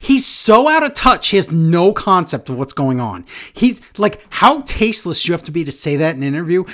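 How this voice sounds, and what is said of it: Usual voice. Nothing is said of it.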